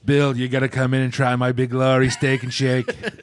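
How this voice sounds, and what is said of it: Imitates another person's voice. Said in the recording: “do a Sardar Beglari impression ... He also sounds like Trump.”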